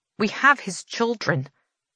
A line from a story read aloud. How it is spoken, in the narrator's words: Farley says